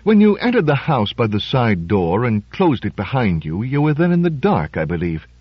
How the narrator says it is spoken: he said softly

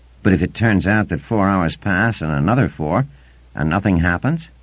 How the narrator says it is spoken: asked Theramon softly

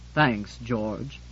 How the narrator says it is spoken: said Septimus gloomily

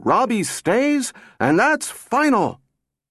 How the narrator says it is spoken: weaker and accompanied by a louder and more agonized groan

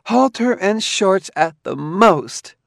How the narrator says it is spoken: she cried

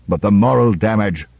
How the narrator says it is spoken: roared Lanning

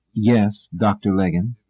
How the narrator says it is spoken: He replied coolly

